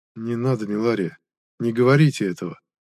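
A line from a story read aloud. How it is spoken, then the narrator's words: Gentle reproach. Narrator (Russian): мягко укорил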